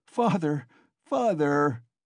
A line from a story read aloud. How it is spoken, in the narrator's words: he cried